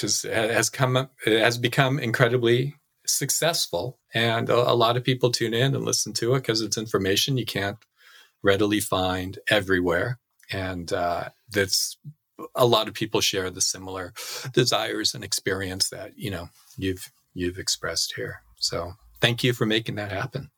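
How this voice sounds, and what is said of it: Whiny Californian accent. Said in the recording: “I've got this like whiny Californian accent going”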